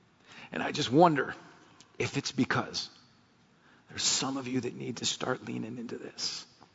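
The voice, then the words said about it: Choked-up emotional voice. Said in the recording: “getting choked up right now”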